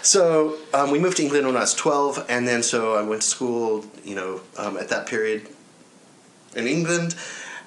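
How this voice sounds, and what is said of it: Noticeable accent. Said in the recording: “that explains the accent, because I've always wondered about your accent ... My dad's British”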